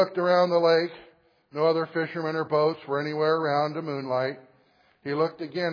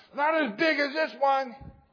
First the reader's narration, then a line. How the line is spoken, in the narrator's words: cried the boy